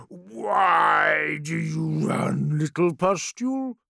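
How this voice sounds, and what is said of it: Deep rumbling menacing character voice. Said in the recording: “Bolothrax's deep voice rumbled from the haze somewhere behind him, thick with foul mirth.”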